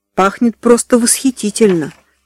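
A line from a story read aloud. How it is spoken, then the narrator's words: Plain. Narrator (Russian): сказала Диана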